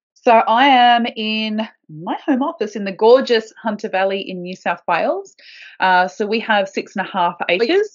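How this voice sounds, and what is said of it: Broad Australian accent. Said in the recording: “you're in Australia ... in Australia. if you couldn't tell by the broad accent”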